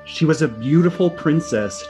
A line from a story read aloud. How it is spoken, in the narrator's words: Jessica said dramatically